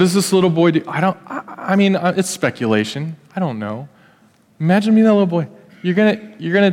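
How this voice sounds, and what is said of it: Usual voice. Nothing is said of it.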